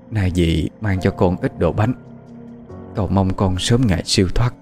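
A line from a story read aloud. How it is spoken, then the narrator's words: Murmured prayer. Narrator (Vietnamese): Dì miệng lẩm bẩm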